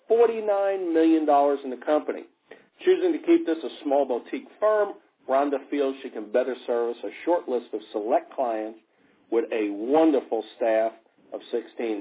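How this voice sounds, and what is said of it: Mild New York accent, radio voice. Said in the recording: “radio voice ... that old New York accent ... I like that New York accent ... it's very small. It's not, you know, soprano-like”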